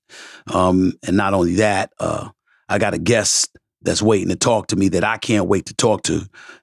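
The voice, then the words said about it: Rough, sick-sounding voice. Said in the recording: “my voice sounds a little bit messed up. I'm a bit under the weather”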